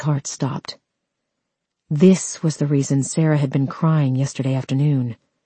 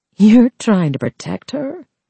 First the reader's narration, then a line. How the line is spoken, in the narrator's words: She laughed